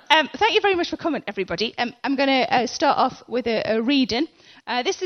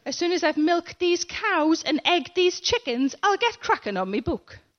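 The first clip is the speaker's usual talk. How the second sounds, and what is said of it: Exaggerated northern English accent. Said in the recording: “a typical dictionary boffin's idea of what a northerner sounds like”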